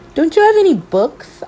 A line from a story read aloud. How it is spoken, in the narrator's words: I cried